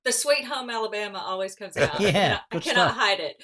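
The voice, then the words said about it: Southern drawl. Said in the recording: “I'm from the South too, so my accent ... it's always got a little bit of a Southern drawl”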